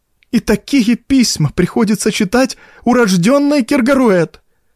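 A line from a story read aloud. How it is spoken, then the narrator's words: Tearful old woman exclaiming. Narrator (Russian): воскликнула старая бретонка, утирая слезы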